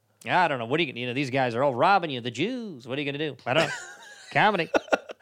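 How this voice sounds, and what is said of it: Imitates another person's voice. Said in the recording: “You talk to me and I'll be Mark ... best impression”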